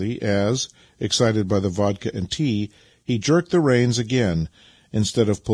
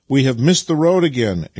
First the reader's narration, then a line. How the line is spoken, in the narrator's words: exclaimed Vasily